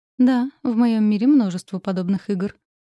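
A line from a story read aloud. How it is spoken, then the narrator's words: Muffled, flat reply. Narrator (Russian): глухо ответила я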